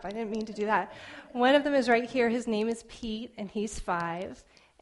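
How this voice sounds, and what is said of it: Choked up, emotional voice. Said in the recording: “Oh, I'm getting all choked up.”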